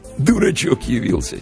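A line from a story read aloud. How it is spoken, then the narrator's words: Soft chuckle. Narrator (Russian): тихонько хохотнул один из приятелей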